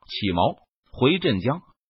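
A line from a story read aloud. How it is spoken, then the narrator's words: Low voice. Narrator (Chinese): 延平郡王低声说道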